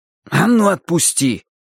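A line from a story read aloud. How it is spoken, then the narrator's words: Furious exclamation. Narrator (Russian): воскликнул я в ярости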